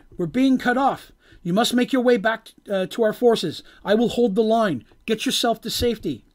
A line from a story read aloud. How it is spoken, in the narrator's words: he cried out